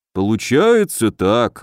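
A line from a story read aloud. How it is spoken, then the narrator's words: Sighing. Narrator (Russian): вздохнул Добрыня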